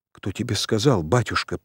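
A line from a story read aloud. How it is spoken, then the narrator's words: Timid babble. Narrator (Russian): пролепетал царевич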